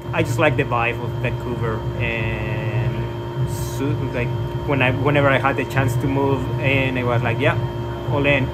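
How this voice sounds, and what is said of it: Foreign accent. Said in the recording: “I hear an accent from you ... I was born in Mexico.”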